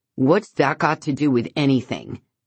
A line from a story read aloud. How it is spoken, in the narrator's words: Ian asks sharply